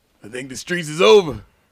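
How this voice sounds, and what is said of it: Poor imitation of another person's voice. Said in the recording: “terrible Jeezy impersonation”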